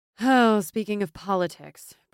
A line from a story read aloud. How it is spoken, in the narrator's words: Brielle said with a sigh